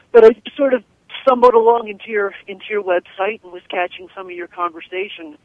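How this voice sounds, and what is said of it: Hoarse, congested voice. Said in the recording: “please excuse my voice a little bit. I'm suffering from a rather bad cold right now.”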